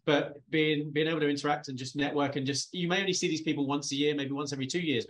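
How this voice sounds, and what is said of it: British accent. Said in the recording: “being the guy from the UK because my accent”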